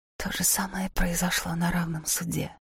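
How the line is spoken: Whisper. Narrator (Russian): прошептала Лика

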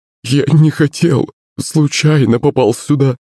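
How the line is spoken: Sobbing bearded man. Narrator (Russian): всхлипывал бородатый

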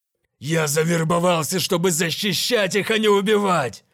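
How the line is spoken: Loud growl. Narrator (Russian): Громко прорычал он

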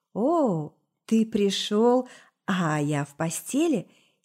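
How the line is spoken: Low, slightly husky drawl. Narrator (Russian): Низким, чуть хрипловатым голосом протянула девушка

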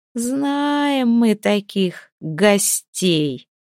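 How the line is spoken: Drawling. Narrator (Russian): протянула она

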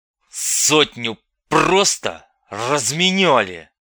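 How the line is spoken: Through gritted teeth. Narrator (Russian): процедил сквозь зубы генерал

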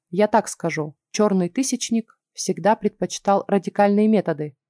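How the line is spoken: Calm. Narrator (Russian): спокойно сказал Петер

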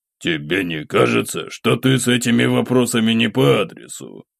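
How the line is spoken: Amused snort. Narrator (Russian): хмыкнул Войд

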